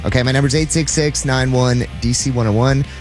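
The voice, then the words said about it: Speaks very fast. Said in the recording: “Why did I say it so fast?”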